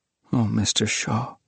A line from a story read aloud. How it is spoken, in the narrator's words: he murmured at last